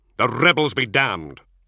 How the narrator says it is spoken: Luther snapped

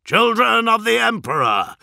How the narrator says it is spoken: he bellowed

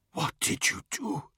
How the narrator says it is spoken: he whispered, tears streaming down his face

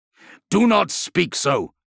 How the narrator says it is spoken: snarled Justinian

